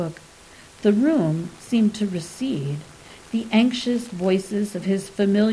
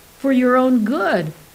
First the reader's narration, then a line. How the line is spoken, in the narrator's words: cried a flapping ephemeris